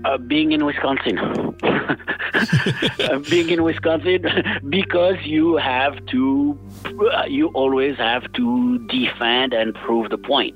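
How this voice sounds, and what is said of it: French accent. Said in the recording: “talk sexy like you ... I'm the only one stuck with a French accent.”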